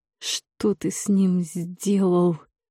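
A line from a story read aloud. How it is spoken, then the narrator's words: Through gritted teeth. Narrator (Russian): процедила сквозь зубы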